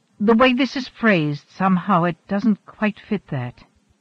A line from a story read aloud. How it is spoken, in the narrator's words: she said slowly